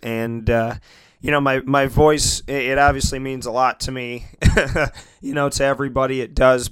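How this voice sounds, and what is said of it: Hoarse, partly lost voice. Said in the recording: “As you can hear, I've kind of lost my voice a little bit over the last couple days.”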